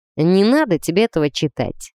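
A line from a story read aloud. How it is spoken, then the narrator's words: Gloomy curt remark. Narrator (Russian): мрачно бросил Грей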